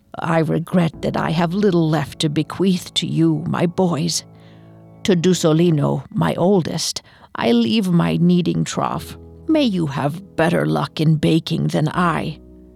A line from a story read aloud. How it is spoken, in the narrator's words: With a raspy voice, Fioriana explained